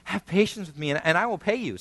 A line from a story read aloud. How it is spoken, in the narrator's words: the servant, fellow servant pleaded with him